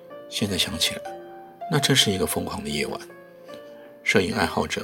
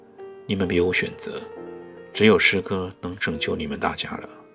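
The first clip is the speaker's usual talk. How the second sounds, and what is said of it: Solemn, grave voice. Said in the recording (Chinese): “用一种庄严的声音说”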